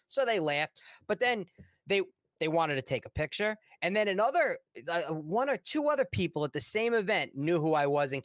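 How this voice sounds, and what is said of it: Strong Long Island New York accent. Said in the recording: “my horrible Long Island, New York accent.”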